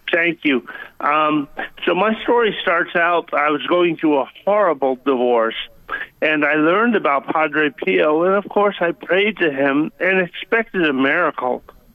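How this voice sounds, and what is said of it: Minnesota-sounding accent. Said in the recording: “I suffered a stroke 6 months ago, so I sound like I'm from Minnesota. But when I've called you in the past, I sound like a Southern guy. Normal.”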